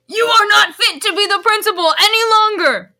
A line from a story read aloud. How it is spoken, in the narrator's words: yelled Rumbridge